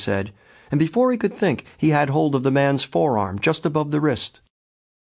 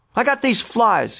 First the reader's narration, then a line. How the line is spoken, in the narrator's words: he said, and he was almost shouting it